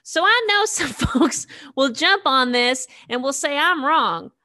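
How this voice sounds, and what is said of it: Put-on Alabama accent. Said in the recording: “let me see if I can get my Alabama accent right”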